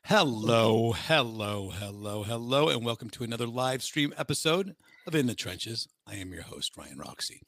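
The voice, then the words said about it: Voice sounds lower than usual. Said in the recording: “My voice sounds a little bit low today.”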